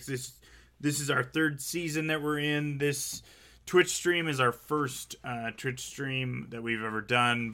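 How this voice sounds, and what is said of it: Hoarse, fading tired voice. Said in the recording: “it sounds like I'm losing my voice. I've been up for way too long.”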